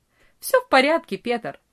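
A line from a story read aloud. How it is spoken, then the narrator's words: Cheerful reply. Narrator (Russian): весело ответил Франц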